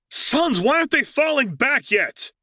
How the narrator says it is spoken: Luke snarled

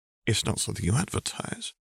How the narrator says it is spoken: he murmured

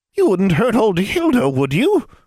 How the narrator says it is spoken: croaked the old woman

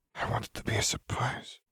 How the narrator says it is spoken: Fleur whispered

